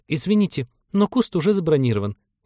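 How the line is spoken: Frightened rapid chatter. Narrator (Russian): испуганно затараторила она

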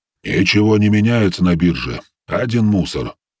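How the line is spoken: Grumbling voice. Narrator (Russian): проворчал голос

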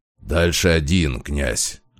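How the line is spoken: Low muffled growl. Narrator (Russian): глухо прорычал он

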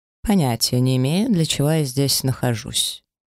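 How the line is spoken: Dry remark. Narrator (Russian): сухо обронил инквизитор

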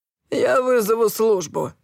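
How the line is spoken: Grumbled. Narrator (Russian): буркнул Сэм

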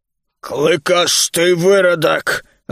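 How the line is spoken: Growl. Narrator (Russian): рыкнул Бруни

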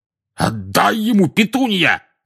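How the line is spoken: Shouted. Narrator (Russian): крикнул дядя Вернон

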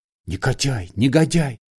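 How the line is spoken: Whispering. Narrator (Russian): шептал Александр Иванович

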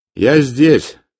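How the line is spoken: Loud. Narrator (Russian): сказал я громко

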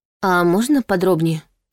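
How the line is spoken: Feigned timid request. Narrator (Russian): притворно робко попросила Саша, как будто боялась навлечь на себя начальственный гнев

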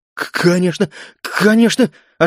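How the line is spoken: Relieved, eager babbling. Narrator (Russian): оживленно залепетал Инг, видимо, понял, что сегодня он останется в живых

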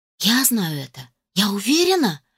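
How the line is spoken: Passionate exclamation. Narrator (Russian): с жаром воскликнула я

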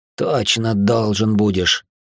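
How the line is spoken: Exhausted grumble, young man. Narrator (Russian): пробурчал осевший на землю юноша, словно из него разом выкачали все соки

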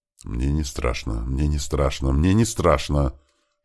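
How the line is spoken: Frightened whisper. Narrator (Russian): шептали губы

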